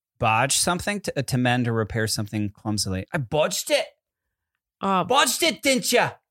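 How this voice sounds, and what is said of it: Put-on Cockney accent. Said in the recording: “can you do a British accent without the Cockney version?”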